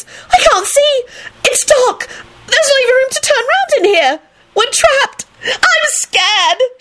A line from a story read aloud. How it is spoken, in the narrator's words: she shrieked dramatically